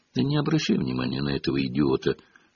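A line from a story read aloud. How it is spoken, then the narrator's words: Whispered. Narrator (Russian): шепнула Гарри Гермиона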